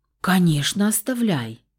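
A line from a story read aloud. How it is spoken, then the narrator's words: Exaggeratedly cheerful. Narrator (Russian): преувеличенно радостно отозвалась я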